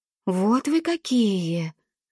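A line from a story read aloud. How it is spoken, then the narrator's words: Drawling. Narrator (Russian): протянула морская кукла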